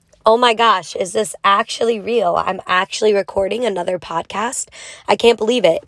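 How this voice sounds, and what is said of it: Hoarse, rusty, worn-out voice. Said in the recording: “I sound a little different, it's because my voice is gone... I've been yelling my ass off... my voice is a little rusty”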